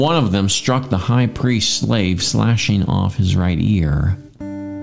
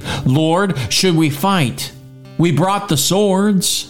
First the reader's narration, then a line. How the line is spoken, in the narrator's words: When the other disciples saw what was about to happen, they exclaimed